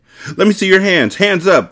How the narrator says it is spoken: they shouted

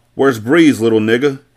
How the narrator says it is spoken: Carter yelled

